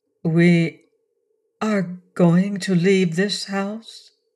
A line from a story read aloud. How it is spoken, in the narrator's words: she asked, speaking very slowly and with a studied lack of emotion